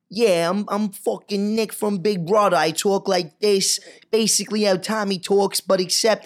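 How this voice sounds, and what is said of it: Philly accent, like Joe Pesci. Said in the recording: “Do a Philly accent. ... Sounds like Joe Pesci. ... Philly accent, fully.”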